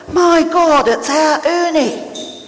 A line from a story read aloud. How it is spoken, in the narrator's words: He let out a yell